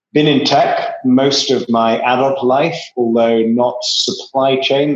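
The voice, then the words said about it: Strong English accent. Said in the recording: “you can tell from my atrociously strong English accent, I'm originally English”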